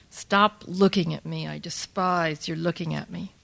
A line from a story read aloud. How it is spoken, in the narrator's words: I hissed at Barbara